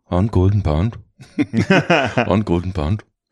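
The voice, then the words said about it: Put-on Icelandic accent. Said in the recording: “how about Icelandic?”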